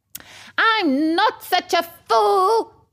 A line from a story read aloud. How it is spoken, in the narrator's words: screamed the dwarf